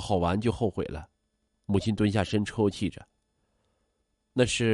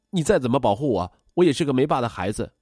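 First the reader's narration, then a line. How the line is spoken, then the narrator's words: Impulsive shout. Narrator (Chinese): 我冲动的大喊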